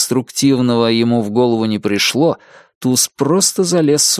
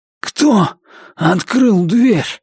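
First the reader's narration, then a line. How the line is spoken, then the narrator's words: Hoarse question. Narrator (Russian): сипло спросил Туз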